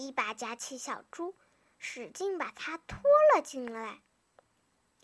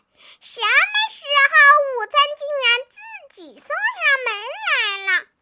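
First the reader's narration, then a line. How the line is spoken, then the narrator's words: Struggling piglet shrieking. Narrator (Chinese): 小猪一边挣扎一边尖叫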